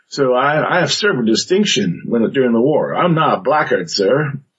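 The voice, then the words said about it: Put-on Southern US accent. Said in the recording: “he slipped into a southern accent”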